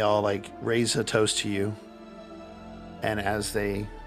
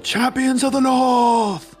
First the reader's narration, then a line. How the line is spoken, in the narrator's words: everybody looks at you and they yell